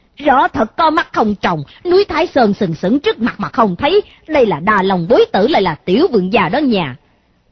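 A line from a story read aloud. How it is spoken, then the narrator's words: Loud shouting followers. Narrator (Vietnamese): Bọn tùy tùng của hắn cũng quát to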